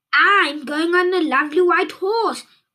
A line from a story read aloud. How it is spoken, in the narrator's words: cried another